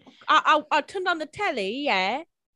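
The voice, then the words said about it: Put-on English accent. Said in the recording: “she learned how to do an English accent... I'll do the accent.”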